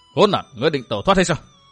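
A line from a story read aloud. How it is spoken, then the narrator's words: Loud shout. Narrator (Vietnamese): Vu Tư Minh quát lớn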